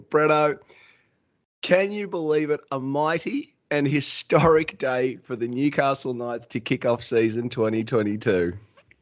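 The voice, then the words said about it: Hoarse, nearly lost voice. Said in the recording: “My voice is all but gone.”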